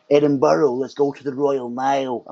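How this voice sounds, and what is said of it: Poor put-on American accent. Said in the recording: “that's not a very good American accent, but that's what I imagine Americans would say”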